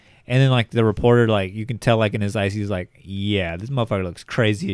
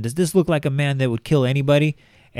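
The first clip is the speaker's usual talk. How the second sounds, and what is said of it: Put-on Belize accent. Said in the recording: “I don't know why she has a Belize accent, she's from Miami”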